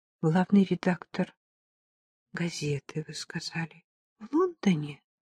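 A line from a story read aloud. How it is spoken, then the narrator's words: Quiet. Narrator (Russian): тихо проговорила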